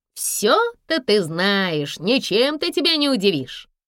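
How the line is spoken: Snide. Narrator (Russian): ехидно ответила Алка

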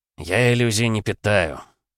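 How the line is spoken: Sighing. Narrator (Russian): вздохнул Демидко

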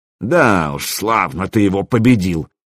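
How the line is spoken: Bitter hiss through teeth. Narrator (Russian): желчно процедил Гостомысл

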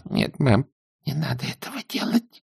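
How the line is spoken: Whisper. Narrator (Russian): мамушка прошептала

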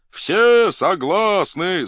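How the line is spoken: Crowd shouting, echoing. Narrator (Russian): закричала толпа, и от крику долго гремело все поле

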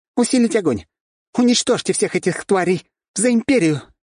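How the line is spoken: Spirited shout. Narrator (Russian): крикнула она задорно

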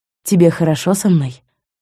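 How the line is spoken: Barely audible. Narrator (Russian): произнес еле слышно

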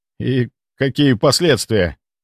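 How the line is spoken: Trembling question. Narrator (Russian): дрожащим голосом спросил Ярк

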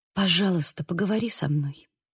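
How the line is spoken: Quiet voice. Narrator (Russian): тихо произнесла я

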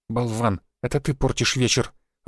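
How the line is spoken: Disappointed mutter. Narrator (Russian): разочарованно буркнула Софья

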